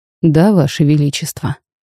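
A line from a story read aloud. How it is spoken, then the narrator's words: Calm. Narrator (Russian): спокойно отозвался тот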